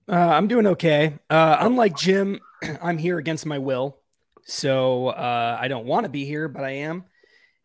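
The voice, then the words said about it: Hoarse, nearly lost voice. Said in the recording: “lacking most of his voice ... my voice is totally shot, as the audience I'm sure can tell”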